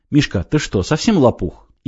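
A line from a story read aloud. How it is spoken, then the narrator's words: Sharp but calm. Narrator (Russian): Игорь говорил резко, но, судя по запаху, был совершенно спокоен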